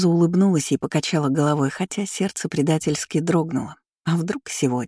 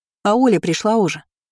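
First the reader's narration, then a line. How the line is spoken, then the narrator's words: Shouted after someone. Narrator (Russian): крикнула она вдогонку Ане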